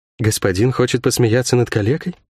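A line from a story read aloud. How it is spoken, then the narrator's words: Quiet question. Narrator (Russian): тихо спросила гостья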